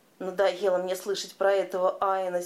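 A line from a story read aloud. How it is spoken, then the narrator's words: Angry. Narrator (Russian): сердито сказал Калиган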